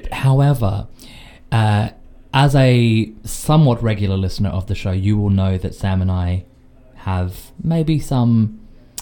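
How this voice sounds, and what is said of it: Thick Australian accent. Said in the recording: “My thick Australian accent”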